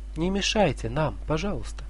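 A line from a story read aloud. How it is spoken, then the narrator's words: Gentle and meek. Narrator (Russian): скажут ласково и кротко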